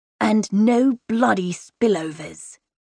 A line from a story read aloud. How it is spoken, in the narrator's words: Cor hisses